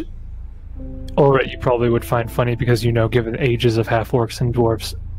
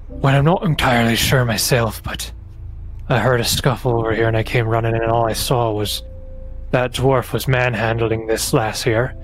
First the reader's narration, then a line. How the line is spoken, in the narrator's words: sighs, and he says